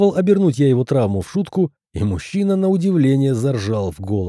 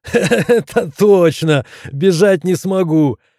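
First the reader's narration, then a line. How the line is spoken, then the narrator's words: After laughing. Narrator (Russian): Отсмеявшись, сказал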